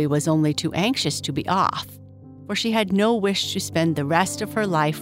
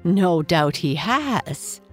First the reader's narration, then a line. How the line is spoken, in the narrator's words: said the Lady of the Moon with a little laugh